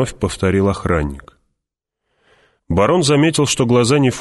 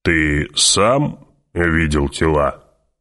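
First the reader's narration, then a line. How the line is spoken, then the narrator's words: Booming drone. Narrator (Russian): прогудел барон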